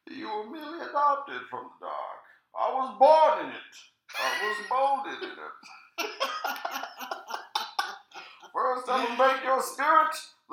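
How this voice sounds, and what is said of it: Imitates the Batman villain Bane. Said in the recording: “do his fucking Bane voice. And I'm talking about Bane, the villain from the Batman movies or comics”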